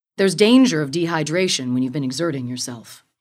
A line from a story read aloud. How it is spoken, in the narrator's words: said